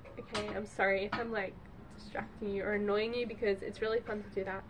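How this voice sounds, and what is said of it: Voice sounds like recovering from cold. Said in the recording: “you can probably tell in my voice, I'm getting over a cold.”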